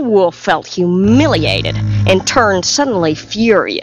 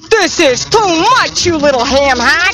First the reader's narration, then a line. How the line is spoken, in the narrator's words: bellowed